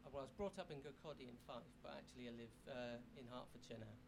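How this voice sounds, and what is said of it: Soothing, slight Scottish accent. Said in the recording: “You have a lovely, soothing accent. ... someone with like a soothing voice like Robin ... you have like a little bit of a Scottish”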